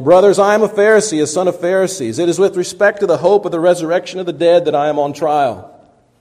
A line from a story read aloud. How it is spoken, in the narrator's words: Paul cried out in the council